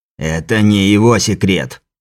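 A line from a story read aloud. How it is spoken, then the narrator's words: Sudden bark. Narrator (Russian): рявкнул вдруг Сиятельный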